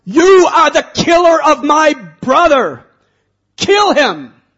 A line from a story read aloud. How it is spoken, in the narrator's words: He screamed out